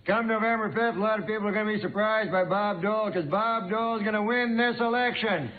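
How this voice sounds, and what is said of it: Impression of Bob Dole. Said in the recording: “doing an impression of Dan Aykroyd when he does an impression of me ... it's a great impression ... Doesn't sound a thing like me”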